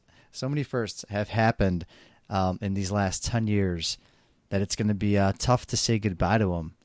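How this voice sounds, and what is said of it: Noticeable accent, slightly jittery. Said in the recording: “My accent's really coming out today... Maybe too much coffee and I'm just a little jittery.”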